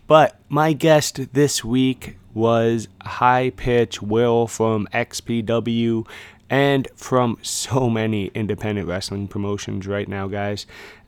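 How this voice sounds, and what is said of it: Raspy hoarse voice. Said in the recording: “I'm going to apologize about the voice. It's a little raspy this time. ... it's springtime, hay fever”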